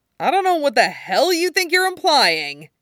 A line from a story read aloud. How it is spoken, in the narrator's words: he starts testily